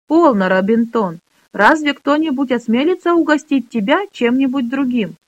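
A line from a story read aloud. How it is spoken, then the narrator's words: Laughing. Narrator (Russian): Рассмеялась Лесса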